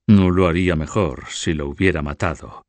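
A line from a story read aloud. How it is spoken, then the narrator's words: Murmured in ear. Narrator (Spanish): murmuró al oído de sus primos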